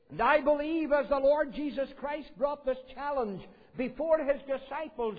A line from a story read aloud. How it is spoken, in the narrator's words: the apostles cried out